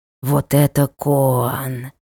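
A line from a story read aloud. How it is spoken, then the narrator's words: Hissing. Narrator (Russian): прошипел он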